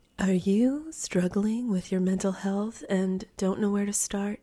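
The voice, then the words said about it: Fake public-radio announcer voice. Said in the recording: “That was kind of my fake NPR voice.”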